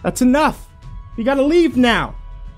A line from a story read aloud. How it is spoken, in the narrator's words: one of them called out